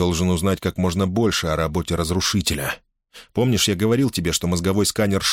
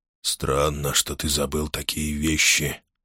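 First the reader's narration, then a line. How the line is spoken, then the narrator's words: Sleepy whisper. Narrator (Russian): сонно прошептал Джал Арн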